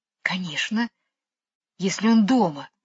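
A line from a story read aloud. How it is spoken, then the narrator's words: Whispering. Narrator (Russian): шепнула Джейн Майклу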